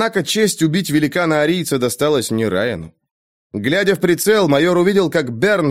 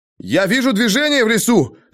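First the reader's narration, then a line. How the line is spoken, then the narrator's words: Shout. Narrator (Russian): закричал маршал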